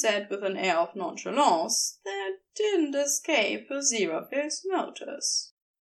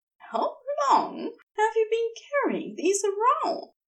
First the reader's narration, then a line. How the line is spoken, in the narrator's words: he asked laughingly